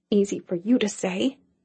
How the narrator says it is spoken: she muttered

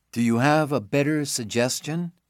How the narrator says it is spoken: Stephen says quietly

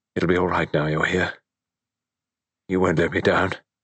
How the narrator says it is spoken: Richard murmured vaguely

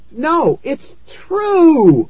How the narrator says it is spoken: I screamed

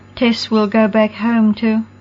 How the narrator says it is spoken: Roxy faltered and her lips trembled

